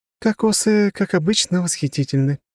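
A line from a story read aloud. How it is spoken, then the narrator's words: Blissful moan. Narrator (Russian): простонала Алина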